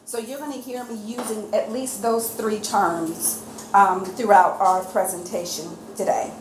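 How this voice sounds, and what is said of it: U.S. Southern accent. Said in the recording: “I do have a U.S. Southern accent”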